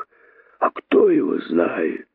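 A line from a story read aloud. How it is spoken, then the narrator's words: Hiss. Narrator (Russian): прошипел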